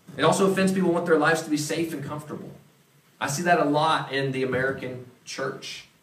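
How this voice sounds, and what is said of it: Southeastern US accent. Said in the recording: “I happen to be part from that part of the country, if you can't tell my accent ... back in the Southeast”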